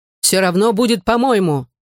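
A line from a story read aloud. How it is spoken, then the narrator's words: Shout. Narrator (Russian): крикнул Ив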